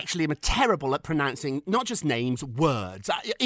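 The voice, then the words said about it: Posh British accent. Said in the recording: “I have a Mary Poppins accent”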